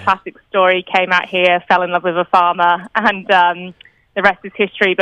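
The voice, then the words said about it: British accent. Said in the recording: “I'm sure you can hear, JB, from my accent. I'm not originally from Australia. All my family are in the UK”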